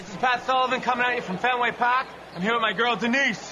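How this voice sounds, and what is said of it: Exaggerated Boston accent. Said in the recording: “Sully and Denise Boston Teens sketch ... the accent”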